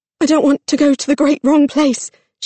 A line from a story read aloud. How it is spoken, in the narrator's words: she gasped